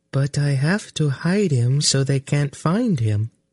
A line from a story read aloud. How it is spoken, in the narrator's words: Synedra say in a strangely numb voice